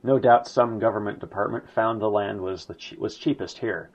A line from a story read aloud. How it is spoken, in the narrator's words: sighed Hitler